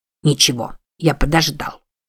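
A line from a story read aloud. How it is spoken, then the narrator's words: Irritated reply. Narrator (Russian): раздраженно ответил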